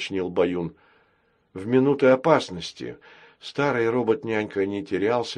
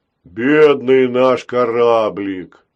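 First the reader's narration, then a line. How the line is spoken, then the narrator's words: Booming drone. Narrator (Russian): прогудел Грохотун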